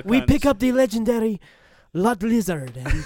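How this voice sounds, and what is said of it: Put-on accent, cartoon voiceover style. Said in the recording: “whatever fucking. Accent you're doing, you're fucking killing it ... You could totally do fucking Disney ... Disney cartoon voiceover, bro?”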